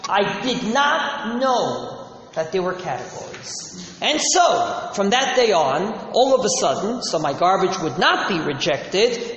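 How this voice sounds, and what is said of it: Noticeable foreign-tinged English accent. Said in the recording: “being a New York-born Jew, as you can probably discern from my accent, going to Israel at the age of 11”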